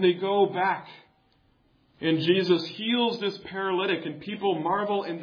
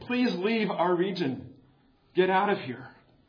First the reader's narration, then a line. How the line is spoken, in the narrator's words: they begged him